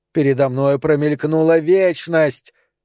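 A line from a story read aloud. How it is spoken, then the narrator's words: Shouting. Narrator (Russian): кричала она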